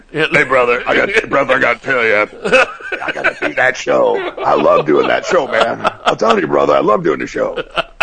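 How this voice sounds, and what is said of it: Gravelly, deep imitated male voice. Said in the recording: “gravelly tone of his ... I'm just trying to do your voice, and it's killing my throat.”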